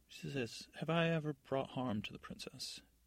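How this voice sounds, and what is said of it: Put-on accent for a character. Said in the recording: “Do you guys like how I change my accent every few minutes?”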